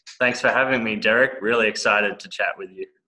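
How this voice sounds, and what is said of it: Australian accent. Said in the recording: “that's an Australian accent ... this is an Australian accent. I luckily have not lost it.”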